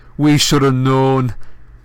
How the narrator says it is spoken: Ron roared

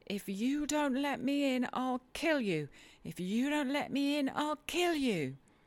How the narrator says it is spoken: he rather shrieked than said

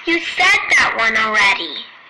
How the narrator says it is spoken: I piped up

